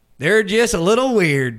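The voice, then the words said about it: Thick West Virginia accent imitation. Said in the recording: “he was like straight out of like West Virginia, my roommate. He had like the thickest accent.”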